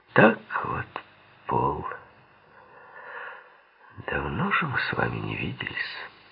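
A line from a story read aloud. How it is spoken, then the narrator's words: Calm voice. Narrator (Russian): проговорил он спокойным голосом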